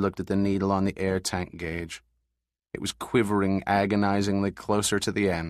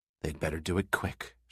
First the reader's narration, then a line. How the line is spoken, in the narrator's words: murmured softly